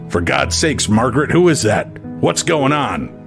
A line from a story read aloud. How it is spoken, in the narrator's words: he barked out